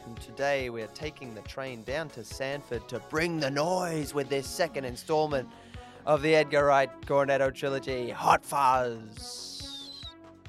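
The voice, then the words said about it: Mixed Australian-English put-on accent. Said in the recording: “I don't know what accent I was doing at the end there. It was a bit Aussie and English. ... Bit Pirates of the Caribbean-y. You weren't pretty pirate.”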